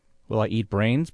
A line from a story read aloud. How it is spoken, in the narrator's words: BLE asked